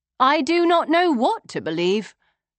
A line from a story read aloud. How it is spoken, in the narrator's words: I said evenly